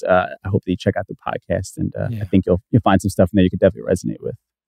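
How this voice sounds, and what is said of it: New York New Jersey accent. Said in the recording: “the great New York, New Jersey pronunciation of podcast ... some sort of East Coast swag on that ... the accent”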